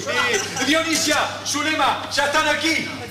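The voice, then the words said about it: Shouting loudly. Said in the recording (Spanish): “no grites. No grites”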